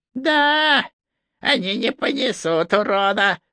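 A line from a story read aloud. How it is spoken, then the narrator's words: Gleeful, grinning. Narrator (Russian): закивал, радостно осклабившись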